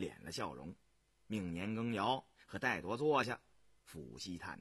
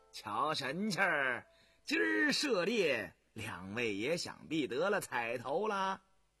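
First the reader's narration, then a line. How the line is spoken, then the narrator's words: Laughing. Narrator (Chinese): 乌丝道笑道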